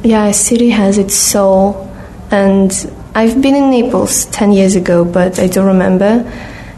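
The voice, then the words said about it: Speaks English with own accent. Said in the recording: “an accent is mine, obviously. Yeah, I couldn't, you know, take it out from me ... she was trying to get away my accent a bit ... he liked the accent”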